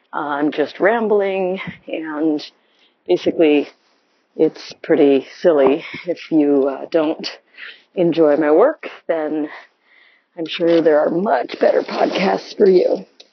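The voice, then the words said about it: Gravelly, tired late-night voice. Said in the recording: “my voice is gravelly”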